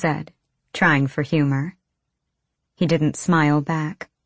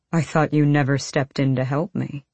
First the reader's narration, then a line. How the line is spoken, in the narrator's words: he said dryly